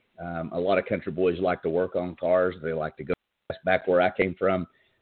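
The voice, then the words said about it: Southern US backwoods accent. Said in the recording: “I was raised in the South, if you couldn't tell by this backwoods accent that I have. I'm a country boy.”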